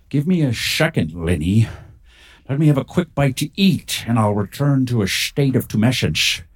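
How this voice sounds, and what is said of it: Scottish accent, sometimes slightly Irish. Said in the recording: “a Scottish relic hunter whose accent is sometimes a little bit Irish”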